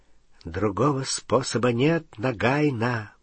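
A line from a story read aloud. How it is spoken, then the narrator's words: Whisper. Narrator (Russian): прошептал он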